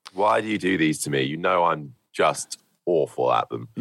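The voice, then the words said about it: Rough, unwell-sounding voice. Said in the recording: “You sound terrible, by the way. ... I am a little bit under the weather. I think I either shouted too much over the weekend on the Formula 3 commentary or I've got a bit of a cold.”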